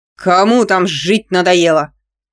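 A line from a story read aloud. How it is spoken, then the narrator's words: Bossy bark. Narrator (Russian): рявкнул Степаныч, привычно переключаясь на начальственный ор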